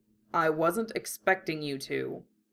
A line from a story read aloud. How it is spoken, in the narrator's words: Hiei grumbled